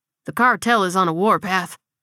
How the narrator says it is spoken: Barry replied with a deep sigh

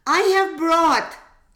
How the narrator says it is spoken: exclaimed another villager

